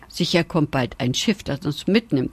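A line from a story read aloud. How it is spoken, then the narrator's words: Plain. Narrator (German): sagte der Hase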